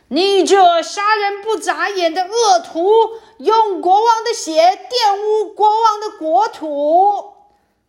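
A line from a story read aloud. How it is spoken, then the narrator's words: Shouting. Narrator (Chinese): 大叫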